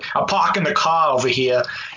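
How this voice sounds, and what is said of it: Put-on Boston accent. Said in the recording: “doing like a Boston accent”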